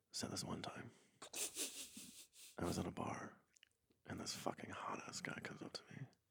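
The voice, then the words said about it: Low, NPR-storytelling style voice. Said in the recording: “in that type of voice ... I was just doing a low voice. ... like NPR storytelling.”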